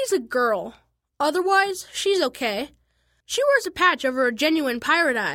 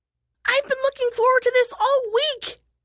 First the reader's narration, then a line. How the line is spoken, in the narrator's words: shrieked Isha